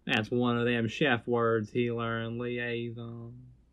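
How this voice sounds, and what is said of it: Put-on southern accent. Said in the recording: “Why are you speaking a southern accent?”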